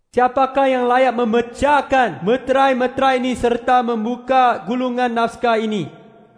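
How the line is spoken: Mighty loud question. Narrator (Indonesian): satu malaikat perkasa bertanya dengan suara yang lantang

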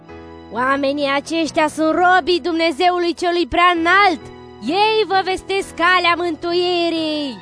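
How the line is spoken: Shout. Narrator (Romanian): striga

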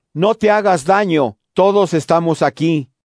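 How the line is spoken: Shouted. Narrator (Spanish): Pablo le gritó

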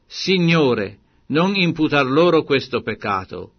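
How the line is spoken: Loud cry. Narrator (Italian): gridò ad alta voce

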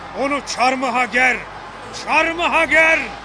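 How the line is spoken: Crowd shouting together. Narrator (Turkish): diye bağırıştılar

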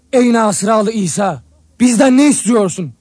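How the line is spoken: Shouted. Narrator (Turkish): diye bağırdı

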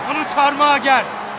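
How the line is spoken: Shouting. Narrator (Turkish): diye bağırdı

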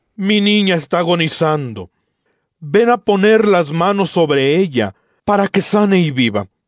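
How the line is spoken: Insistent pleading. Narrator (Spanish): le suplicaba con insistencia, diciendo

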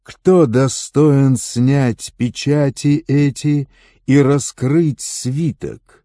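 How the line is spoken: Loud questioning. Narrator (Russian): Он громко вопрошал

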